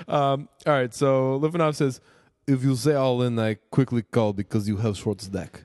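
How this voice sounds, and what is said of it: Put-on Russian accent. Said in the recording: “I feel like Russian's okay ... That was amazing ... That was outrageous ... That was incredible ... Accents are fun”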